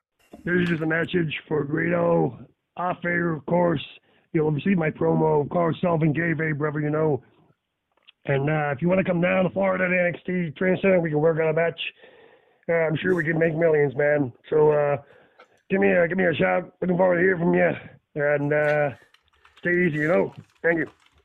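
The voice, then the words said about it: Shawn Michaels impression. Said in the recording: “How good an impression. ... a good impression. ... as Shawn Michaels”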